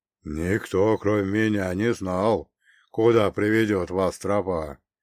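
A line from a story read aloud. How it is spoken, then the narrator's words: Muffled, uncertain. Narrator (Russian): глухо отозвался леший, и в его голосе впервые послышалась неуверенность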